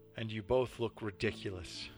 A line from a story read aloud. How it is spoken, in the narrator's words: said